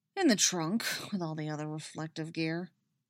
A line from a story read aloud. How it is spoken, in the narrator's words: he grumbles